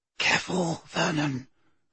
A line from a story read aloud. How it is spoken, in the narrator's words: breathed Aunt Petunia